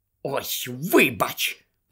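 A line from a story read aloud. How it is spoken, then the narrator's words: Hissed. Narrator (Ukrainian): прошипіла Герміона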